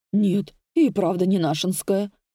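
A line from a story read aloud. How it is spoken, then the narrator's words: Old woman's grumble. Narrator (Russian): проворчала старушка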